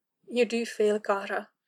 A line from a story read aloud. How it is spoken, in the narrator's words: Kaelin said gently